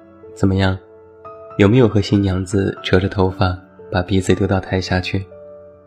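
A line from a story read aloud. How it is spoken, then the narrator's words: Joking question. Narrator (Chinese): 我开玩笑的问他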